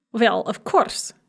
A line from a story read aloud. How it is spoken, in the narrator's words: snapped Galina Ivanovna